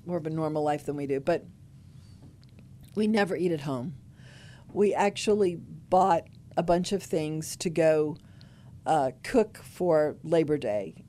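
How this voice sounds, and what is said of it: Voice giving out, strained. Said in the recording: “losing my voice.”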